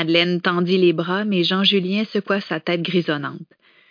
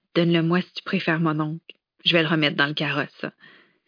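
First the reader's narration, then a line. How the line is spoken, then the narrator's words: Tender whisper. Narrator (French): Madeleine chuchota avec tendresse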